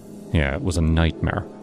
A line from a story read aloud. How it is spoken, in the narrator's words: I muttered